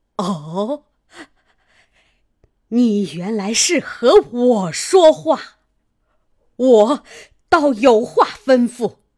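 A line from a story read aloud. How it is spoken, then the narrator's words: Breathless stern voice. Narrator (Chinese): 贾母 喘息一回，厉声说道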